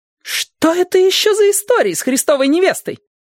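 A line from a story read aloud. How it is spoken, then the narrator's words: Yelling over the music. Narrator (Russian): завопила Мондин, перекрывая Иоганна Себастьяна Баха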